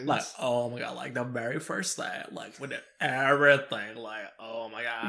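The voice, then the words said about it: Put-on California accent. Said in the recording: “The Cali accent. Oh, yeah. That's what I call it. ... You have to do the Cali accent. ... I don't even think I got the accent right.”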